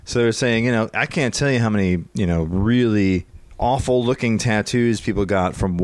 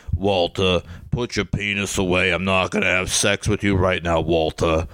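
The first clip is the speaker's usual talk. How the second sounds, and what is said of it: Imitates another person's voice. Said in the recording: “doing a Mike Ehrmantraut impression”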